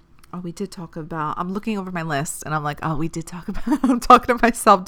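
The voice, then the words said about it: Congested, choked-up voice. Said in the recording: “I'm getting choked up. My allergies are like bothering me a little bit.”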